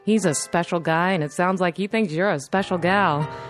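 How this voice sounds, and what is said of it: Polished radio announcer voice. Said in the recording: “What a great radio voice.”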